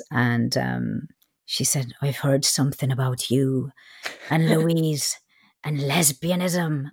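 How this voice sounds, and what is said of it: Weak put-on Irish accent. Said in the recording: “that's a terrible Irish accent, but it's the best I can do”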